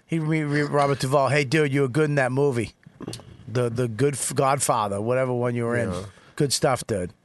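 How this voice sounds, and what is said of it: Imitates another person's voice. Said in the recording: “That's the worst Lewis impression.”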